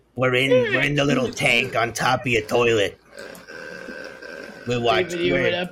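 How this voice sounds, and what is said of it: Long Island-like cartoon frog voice. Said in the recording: “What accent is this? This is fabulous. ... It sounds fucking like Long Island. ... It's the frogs from Rocco's Modern Life.”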